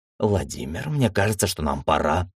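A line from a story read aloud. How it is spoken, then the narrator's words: Whispered. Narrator (Russian): прошептала мисс Фокс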